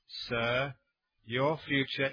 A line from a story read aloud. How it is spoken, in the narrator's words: very slowly, with the calm of a meditating monk, said